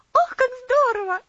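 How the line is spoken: Exclaimed. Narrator (Russian): воскликнула Луси

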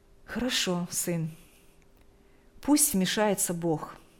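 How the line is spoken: Calm. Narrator (Russian): спокойно произнесла мать

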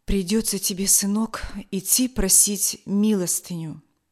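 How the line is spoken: Sad father. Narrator (Russian): отец печально произнес

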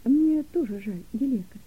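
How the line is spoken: Gentle mother. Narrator (Russian): мягко ответила мама

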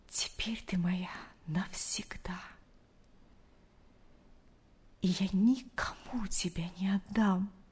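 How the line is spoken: Whisper. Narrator (Russian): прошептал он

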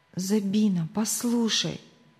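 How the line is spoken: Whisper. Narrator (Russian): прошептала она

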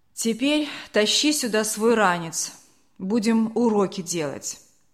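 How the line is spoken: Tired mother. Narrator (Russian): мама усталым голосом сказала

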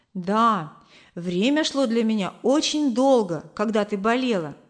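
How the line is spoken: Plain. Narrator (Russian): сказал Кор

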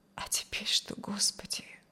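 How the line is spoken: Whisper. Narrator (Russian): прошептала

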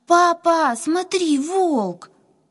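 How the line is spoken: Terrified scream. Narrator (Russian): Катя, задрожав от страха, закричала

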